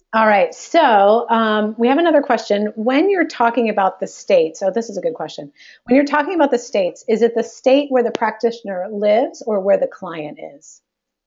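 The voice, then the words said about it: Voice sounds like a cold. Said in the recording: “I've got a bit of a cold today. I'm like, oh.”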